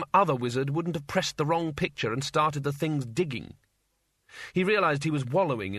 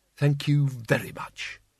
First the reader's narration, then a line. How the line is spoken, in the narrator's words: said bitterly